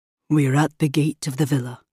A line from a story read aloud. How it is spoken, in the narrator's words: he said solemnly